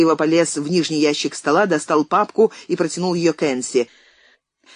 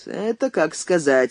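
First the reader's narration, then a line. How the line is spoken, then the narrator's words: Gloomy. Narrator (Russian): мрачно проговорил Андрей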